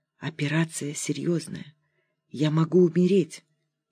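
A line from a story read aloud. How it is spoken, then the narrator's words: Whispered. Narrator (Russian): Верочка покосилась на спящих соседок и шепотом сказала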